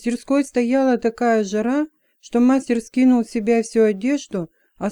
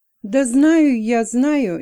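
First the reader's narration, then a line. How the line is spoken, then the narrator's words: Impatient exclamation. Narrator (Russian): нетерпеливо воскликнул Хэмиан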